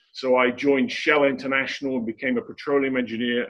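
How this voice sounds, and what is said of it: English accent. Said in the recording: “I'm English, obviously. You can tell that from my accent.”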